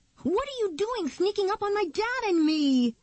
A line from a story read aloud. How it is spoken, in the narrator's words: Nikki shouted